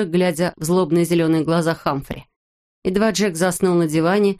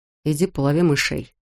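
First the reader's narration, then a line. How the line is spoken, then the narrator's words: Sleepy mumble. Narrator (Russian): пробормотал Джек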